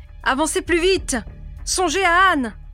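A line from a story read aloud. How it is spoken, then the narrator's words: Shouting. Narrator (French): criait Jack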